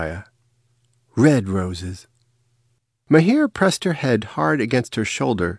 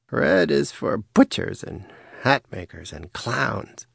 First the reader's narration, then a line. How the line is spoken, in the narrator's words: she murmured